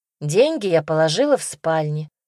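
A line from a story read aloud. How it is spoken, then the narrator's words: Snide. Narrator (Russian): ехидно сообщила она старушке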